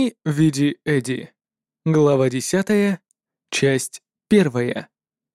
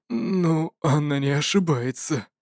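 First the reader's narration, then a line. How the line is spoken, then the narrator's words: Low mutter, dry chuckle. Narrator (Russian): с сухим хихиканьем пробормотал в полголоса Драннер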